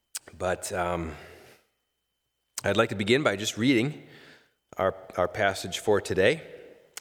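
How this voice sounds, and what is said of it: Weak voice from a cold. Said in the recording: “I've been fighting a cold all week, so my voice is a little weaker today”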